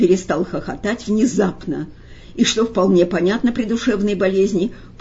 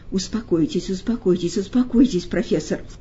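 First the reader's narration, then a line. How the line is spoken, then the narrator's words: Soothing mutter. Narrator (Russian): бормотал Берлиоз, опасаясь волновать больного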